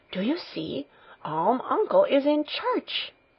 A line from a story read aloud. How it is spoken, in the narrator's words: every one … whispering